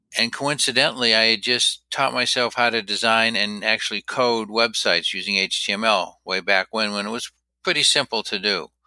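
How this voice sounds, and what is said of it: Maine New England accent. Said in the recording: “I can hear the Bangor, Maine accent.”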